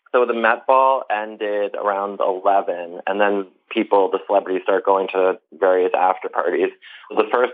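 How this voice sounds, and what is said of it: Hoarse, strained voice. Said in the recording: “I was up very late, as you can hear in my voice right now ... I sound like a strep throat or something.”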